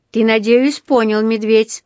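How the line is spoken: Loud, for everyone to hear. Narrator (Russian): проговорил он громким голосом, чтобы слышали все вокруг

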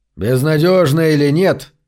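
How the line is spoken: Booming voice. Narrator (Russian): прогремел Зарк

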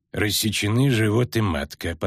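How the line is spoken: Forced calm, cold. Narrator (Russian): поставил он диагноз, стараясь говорить спокойно и холодно

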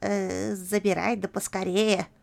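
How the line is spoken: Grumbling old woman. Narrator (Russian): проворчала бабка-подбериха

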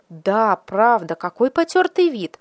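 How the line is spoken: Council exclaiming together. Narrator (Russian): воскликнули члены городского совета

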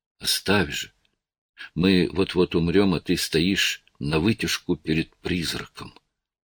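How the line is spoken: Muffled whisper. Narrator (Russian): глухим шепотом добавила

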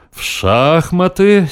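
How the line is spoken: Drawling. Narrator (Russian): с тем же выражением протянул спортсмен

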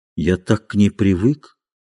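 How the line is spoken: Quiet. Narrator (Russian): сказал он тихо

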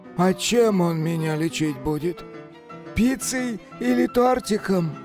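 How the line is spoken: Whiny capricious voice. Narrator (Russian): капризным голосом заныл Кощей

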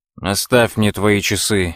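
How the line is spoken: Angry. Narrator (Russian): сердито сказал он

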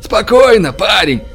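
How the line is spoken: Shout. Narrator (Russian): крикнул Тим

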